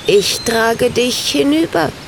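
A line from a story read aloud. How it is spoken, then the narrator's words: Bird's croak. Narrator (German): krächzte der Vogel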